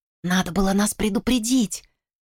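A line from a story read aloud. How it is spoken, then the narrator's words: Whispered. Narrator (Russian): прошептала Салли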